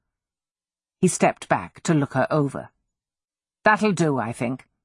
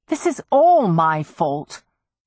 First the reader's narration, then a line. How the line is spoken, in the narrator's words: she said fiercely